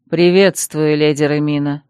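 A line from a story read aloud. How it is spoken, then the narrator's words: Dry reply. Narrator (Russian): сухо отозвался он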